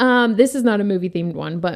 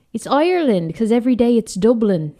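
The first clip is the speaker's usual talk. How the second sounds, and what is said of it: Terrible put-on Irish accent. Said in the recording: “you would pick one where you could use an accent ... my accents are terrible”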